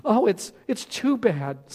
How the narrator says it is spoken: sobbed Lucy

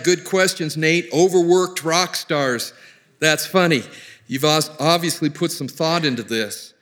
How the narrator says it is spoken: His dad chuckled and replied

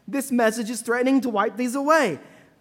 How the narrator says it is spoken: they yell

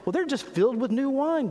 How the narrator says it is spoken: But others mocked, said

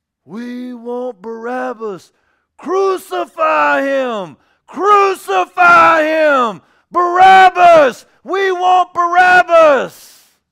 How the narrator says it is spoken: a self-seeking, self-backing Facebook crowd that had the same ideas in them and screamed

